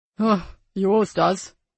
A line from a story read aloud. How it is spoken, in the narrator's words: grumbled Dave